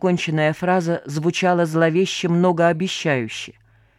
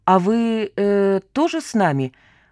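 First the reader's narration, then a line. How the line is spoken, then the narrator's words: Drawled in confusion. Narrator (Russian): растерянно протянул Вадька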